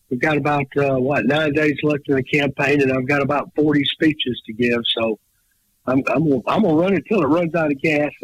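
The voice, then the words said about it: Hoarse, strained, fading voice. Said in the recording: “I'm losing my voice, so if I sound a little peculiar”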